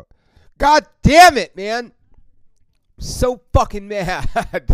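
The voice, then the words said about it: Angry, frustrated shouting outburst. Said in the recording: “That was me doing my impression of how I think the fucking Dodgers have been playing”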